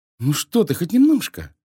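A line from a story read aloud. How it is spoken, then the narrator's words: Exclaiming. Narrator (Russian): воскликнула Изабелла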